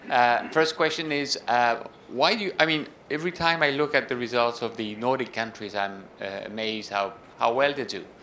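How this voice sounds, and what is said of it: French accent. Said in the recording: “I am French, as you will have noticed from my accent”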